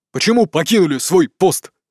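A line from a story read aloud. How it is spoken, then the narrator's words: Bark. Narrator (Russian): рявкнул один из них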